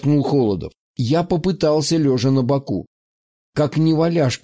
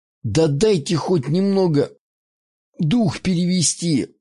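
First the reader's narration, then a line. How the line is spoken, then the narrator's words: Relaxed exhale. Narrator (Russian): выдохнул я, расслабившись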